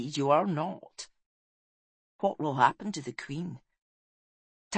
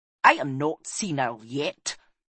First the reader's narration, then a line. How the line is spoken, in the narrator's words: snapped Oracle